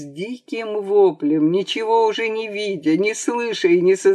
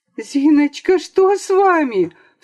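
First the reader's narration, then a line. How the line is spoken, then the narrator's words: Cry out. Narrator (Russian): вскрикнула Лиза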